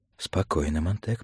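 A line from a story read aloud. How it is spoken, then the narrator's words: Warning whisper in ear. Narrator (Russian): предостерегающе шептал в ухо Фабер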